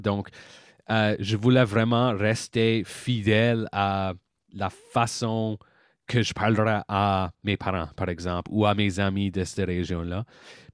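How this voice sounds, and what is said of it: French with a slight English tinge. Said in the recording (French): “mon accent, il y a un tinge d'anglais là-dedans”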